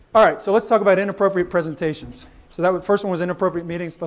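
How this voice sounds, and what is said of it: Out of breath, panting speech. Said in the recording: “I'm out of breath now.”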